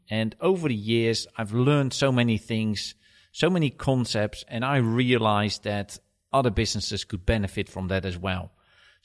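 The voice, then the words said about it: Dutch accent. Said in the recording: “my accent is not from Essex. I am originally from Holland”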